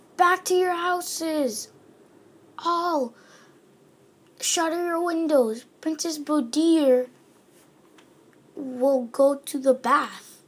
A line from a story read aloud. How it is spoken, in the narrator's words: the crier shouting